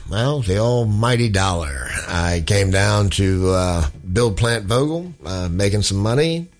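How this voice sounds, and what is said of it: Non-Southern American accent. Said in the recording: “I'm sure somebody can tell by my voice. No, I am not from the South.”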